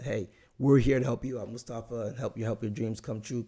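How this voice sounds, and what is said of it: Raspy, strained voice. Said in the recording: “my raspy voice ... it's hard for me to get the words out, because, man, a whole lot of screaming this past week”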